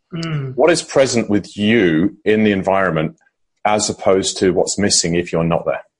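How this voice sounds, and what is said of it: Acquired British accent. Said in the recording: “you've picked up the British accent very well”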